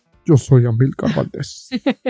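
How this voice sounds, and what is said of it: Deep put-on manly voice. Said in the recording (Spanish): “intentando hacer voz de Barry White. De hombre.”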